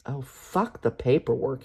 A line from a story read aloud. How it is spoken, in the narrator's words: he growls